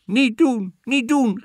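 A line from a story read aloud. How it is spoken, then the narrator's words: Farmer calling out. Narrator (Dutch): riep de boer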